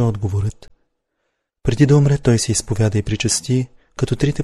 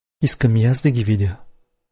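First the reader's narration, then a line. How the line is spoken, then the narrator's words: Plain. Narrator (Bulgarian): рекох му аз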